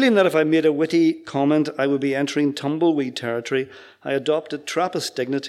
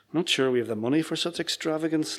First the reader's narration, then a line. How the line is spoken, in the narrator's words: Linda muttered loud enough for me to hear